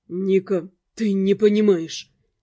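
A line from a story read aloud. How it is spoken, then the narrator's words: Muffled, hollow voice. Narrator (Russian): голос Дамиана прозвучал глухо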